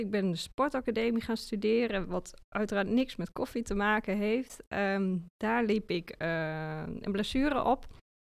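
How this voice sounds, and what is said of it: Dutch Achterhoek regional accent. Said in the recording (Dutch): “Nou, dat is wel te horen. Ik kom uit de Achterhoek en dat accent, dat heb ik natuurlijk nog steeds”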